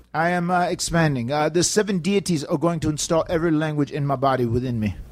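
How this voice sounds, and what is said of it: Strange put-on futuristic accent. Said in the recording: “everyone will be talking with this accent that you have”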